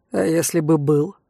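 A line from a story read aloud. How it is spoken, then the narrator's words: Very cold. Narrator (Russian): Совсем холодно осведомилась я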